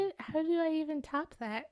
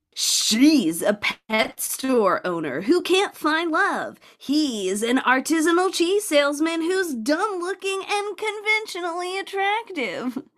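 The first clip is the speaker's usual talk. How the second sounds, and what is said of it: Dramatic movie trailer narrator voice. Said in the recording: “my trailer impression”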